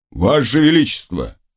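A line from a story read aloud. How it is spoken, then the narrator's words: Admonishing persuasive tone. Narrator (Russian): сказал он увещевательным голосом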